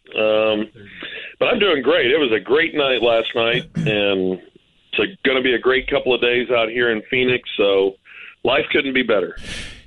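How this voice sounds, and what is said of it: Hoarse, congested voice. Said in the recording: “he sounds hungover ... Does sound a little little plugged up ... I'm still just a little hoarse”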